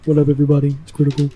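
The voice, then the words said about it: Imitates another person's voice. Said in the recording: “I do a really good critical impression.”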